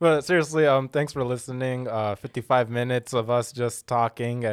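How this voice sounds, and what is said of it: Usual voice. Nothing is said of it.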